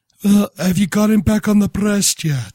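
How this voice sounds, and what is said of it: Put-on accent. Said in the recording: “That was a beautiful accent you used right there.”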